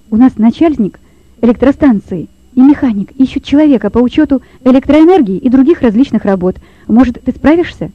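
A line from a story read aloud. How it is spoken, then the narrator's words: Rapid speech. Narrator (Russian): быстро проговорил он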